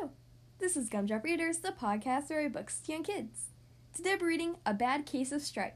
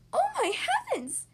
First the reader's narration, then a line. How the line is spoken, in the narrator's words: she cried